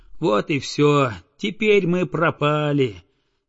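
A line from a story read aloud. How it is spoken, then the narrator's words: Sighing. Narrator (Russian): вздохнул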